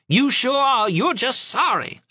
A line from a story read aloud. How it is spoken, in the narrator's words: screeched Aunt Loma